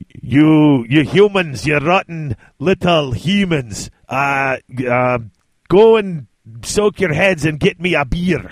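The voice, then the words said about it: Put-on fantasy dwarf accent, Scottish-like. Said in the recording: “your Scottish, in parentheses, dwarf accent ain't so bad ... I do a dwarvish accent. I do. It's not a great one ... it's not so, Scottish. It's dwarvish”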